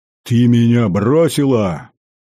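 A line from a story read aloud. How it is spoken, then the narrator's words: Roar. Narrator (Russian): взревев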